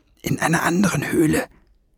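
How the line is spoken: Hiss. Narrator (German): zischte Fliegenbein

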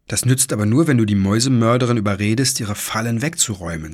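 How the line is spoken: Plain. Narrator (German): sagte Anne

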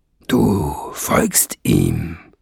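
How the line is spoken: Grunted. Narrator (German): grunzte Nesselbrand

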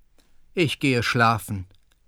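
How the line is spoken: Tired. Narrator (German): meinte müde

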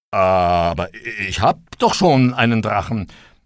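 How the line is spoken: Stammering. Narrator (German): konnte der Arme noch stammeln

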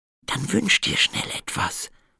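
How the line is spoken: Whispered. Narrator (German): flüsterte die Prinzessin

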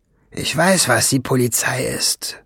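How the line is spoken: Grumbled. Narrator (German): brummte Schwefelfell

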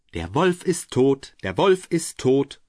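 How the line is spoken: Young goats calling loudly. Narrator (German): die sieben Geißlein riefen laut

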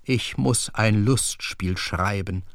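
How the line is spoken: Stammering. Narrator (German): stammelte

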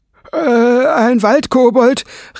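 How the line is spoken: Startled cry. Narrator (German): rief Bleiglanz erschrocken

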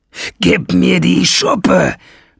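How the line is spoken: Roaring. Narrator (German): brüllte Nesselbrand

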